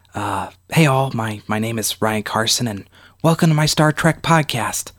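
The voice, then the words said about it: Whispering. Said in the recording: “why I'm whispering.”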